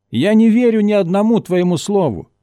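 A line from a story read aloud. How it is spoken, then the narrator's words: Shout. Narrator (Russian): крикнул он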